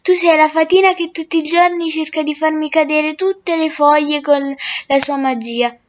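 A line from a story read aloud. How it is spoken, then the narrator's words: Smiling. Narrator (Italian): disse sorridendo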